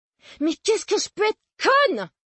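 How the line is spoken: Exclaiming. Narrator (French): s'exclama-t-elle

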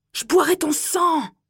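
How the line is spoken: Distant roaring boy. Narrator (French): rugissait le garçon plus loin dans le couloir

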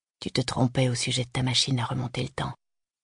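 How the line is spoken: Murmured. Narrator (French): murmura-t-il

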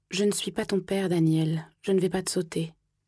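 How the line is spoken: Calm reply. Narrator (French): Il m'a répondu calmement

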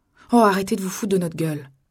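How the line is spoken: Grumbled. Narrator (French): grommela Didi

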